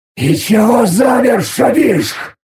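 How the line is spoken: Irritated hiss. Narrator (Russian): прошипел я раздраженно

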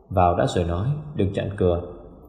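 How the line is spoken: Light, laughing. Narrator (Vietnamese): Phong Đình bật cười, nói với vẻ vô cùng nhẹ nhàng

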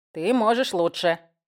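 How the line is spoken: Snorting smirk. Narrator (Russian): хмыкнул Истон и заржал

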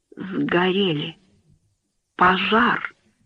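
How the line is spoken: Broken whisper. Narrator (Russian): прошептал доктор прерывающимся голосом

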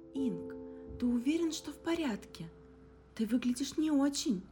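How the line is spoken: Alarmed exclamation. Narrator (Russian): В тревоге воскликнула Мия

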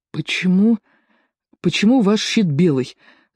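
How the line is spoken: Stammering. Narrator (Russian): запинаясь, сказал он

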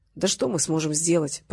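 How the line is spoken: Muttering. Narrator (Russian): пробормотал Гарик

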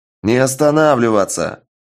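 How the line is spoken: Barked. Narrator (Russian): рявкнул бабник

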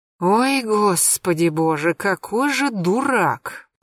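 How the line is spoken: Moaned. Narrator (Russian): простонала Марьяна

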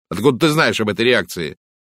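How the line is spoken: Sharp question. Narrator (Russian): спросил резко

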